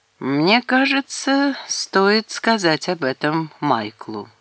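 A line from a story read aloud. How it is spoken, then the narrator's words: Slow. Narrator (Russian): медленно произнес Фиоре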